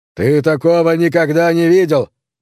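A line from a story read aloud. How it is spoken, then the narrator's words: Shout. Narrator (Russian): крикнул он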